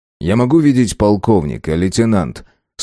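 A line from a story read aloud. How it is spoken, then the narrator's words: Forced calm. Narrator (Russian): спросил он, заставляя себя говорить спокойно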